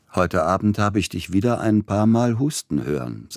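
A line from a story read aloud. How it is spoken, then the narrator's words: Plain. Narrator (German): sagte er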